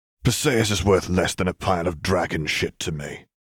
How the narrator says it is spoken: Arcturus spat

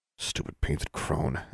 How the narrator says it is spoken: Alexandra muttered

